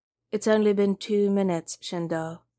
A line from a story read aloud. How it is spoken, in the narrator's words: Akira replied very calmly